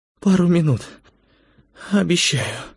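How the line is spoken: Barely audible. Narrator (Russian): еле слышно сказала Светлана

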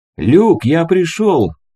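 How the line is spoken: Shout. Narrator (Russian): крикнул художник

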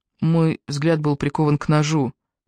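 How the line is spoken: Quiet. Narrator (Russian): негромко добавил Джастин

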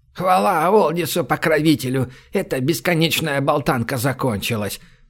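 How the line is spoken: Grumbling. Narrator (Russian): проворчала Лими

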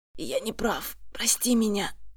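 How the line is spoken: Hoarse rasp. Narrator (Russian): хрипит он

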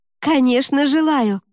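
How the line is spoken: Ringing exclamation. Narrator (Russian): воскликнула Ева, и Горыня поморщился от ее звонкого голоса

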